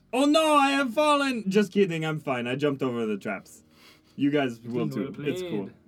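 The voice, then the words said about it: Attempted French accent, slightly New Zealand-like. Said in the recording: “I can't do the French accent. ... And it's a little bit New Zealand-y, but it's fine.”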